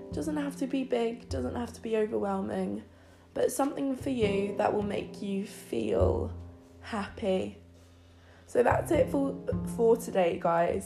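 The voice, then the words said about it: Congested, clogged-up nasal voice. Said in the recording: “my voice has been a bit weird. I've got like a bit of a clogged up everything... got a bit bit of a clogged up nose and ears actually”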